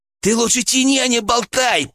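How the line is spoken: Through gritted teeth. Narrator (Russian): процедил Арсений

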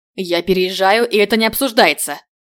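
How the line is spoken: Growl. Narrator (Russian): Прорычал

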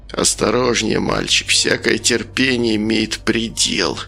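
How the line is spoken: Hissed warningly. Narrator (Russian): прошипел Ник

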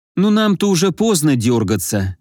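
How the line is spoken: Sighing. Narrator (Russian): вздохнула Рита

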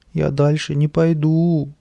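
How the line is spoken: Whining. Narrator (Russian): захныкал он

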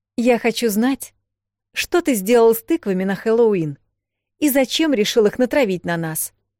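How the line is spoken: Sharp commanding interruption. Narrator (Russian): резко перебила его Эл командующим тоном

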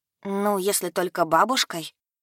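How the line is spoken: Grumbling. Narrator (Russian): Проворчала Янка

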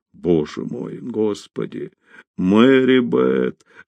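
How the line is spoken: Whispering. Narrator (Russian): шептал он

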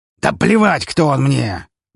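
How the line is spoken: Furious barking shout. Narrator (Russian): в ярости рявкнул Гаврилович

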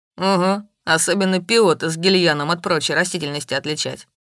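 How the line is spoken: Wry snort. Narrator (Russian): хмыкнул Илис

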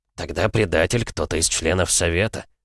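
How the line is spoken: Gloomy. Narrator (Russian): мрачно произнес Лоусон

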